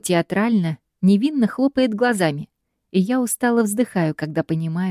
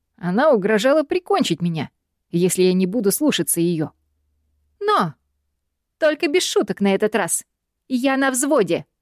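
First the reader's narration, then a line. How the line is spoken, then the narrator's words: Snide mimicking. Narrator (Russian): Парень ехидно передразнивает ее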